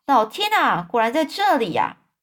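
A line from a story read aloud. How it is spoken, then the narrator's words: Sudden loud shout. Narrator (Chinese): 汤姆忽然大声叫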